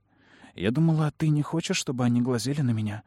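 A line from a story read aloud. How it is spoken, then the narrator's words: Whisper. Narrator (Russian): прошептала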